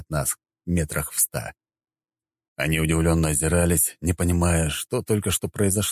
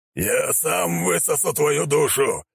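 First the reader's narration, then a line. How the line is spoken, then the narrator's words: Demonic lord's growl. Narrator (Russian): прорычал властелин бездны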